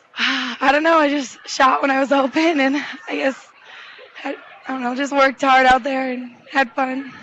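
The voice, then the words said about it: Hoarse, out-of-breath voice. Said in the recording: “You sound like you're a little out of breath. ... Yeah, I'm a little hoarse, lost my voice.”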